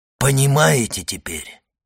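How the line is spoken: Plain. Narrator (Russian): спросил Фария

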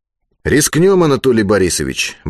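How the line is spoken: Brisk, upbeat. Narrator (Russian): бодро ответил Алексей Петрович

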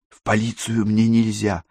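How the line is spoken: Whisper. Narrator (Russian): шепнула Катерина

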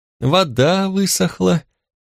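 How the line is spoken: Deeply sad sigh. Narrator (Russian): вздохнул оценщик с такой грустью, будто речь шла о чьей-то иссякшей крови

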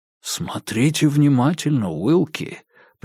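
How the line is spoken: Whisper. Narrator (Russian): прошептал Диккенс

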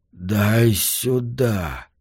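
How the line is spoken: Whispered. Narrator (Russian): Фрэнк прошептал

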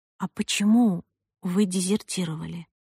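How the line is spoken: Whispered question. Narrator (Russian): Я спросила шепотом

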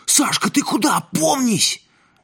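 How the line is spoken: Distant shout from crowd. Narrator (Russian): Из задних рядов крикнули

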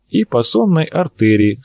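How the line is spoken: Calm. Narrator (Russian): спокойно прокомментировал Арцулов

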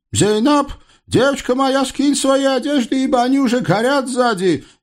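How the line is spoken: Sudden wail, imitated voice. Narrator (Russian): неожиданно завопил на средин, изо всех сил подражая голосу Далилы

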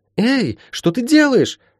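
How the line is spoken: Indignant yell. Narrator (Russian): тут же возмущенно завопила Ласка

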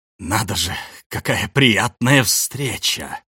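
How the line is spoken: Through gritted teeth. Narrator (Russian): Сквозь зубы процедил Джек

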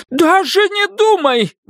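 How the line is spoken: Shouted. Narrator (Russian): выкрикнула Пэт

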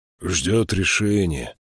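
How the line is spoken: Gloomy reply. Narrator (Russian): мрачно ответил Эйстан

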